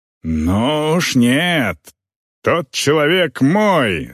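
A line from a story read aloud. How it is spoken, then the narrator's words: Growled. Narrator (Russian): зарычал Агнар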